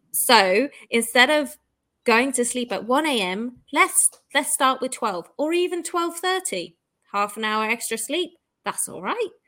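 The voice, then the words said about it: Speaker's own accent. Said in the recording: “Your accent makes it sound so fun.”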